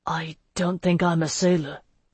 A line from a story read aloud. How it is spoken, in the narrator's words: he murmured